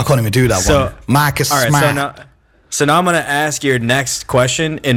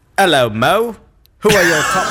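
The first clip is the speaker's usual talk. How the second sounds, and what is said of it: Put-on old-fashioned UK accent. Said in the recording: “my best version of a UK accent ... You're from 1800, bro.”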